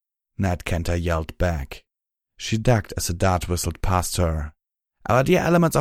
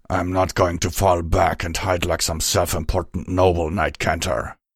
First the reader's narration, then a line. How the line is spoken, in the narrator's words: he snarled